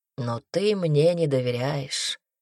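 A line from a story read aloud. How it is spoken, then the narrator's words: Soft. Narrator (Russian): мягко сказал Брикс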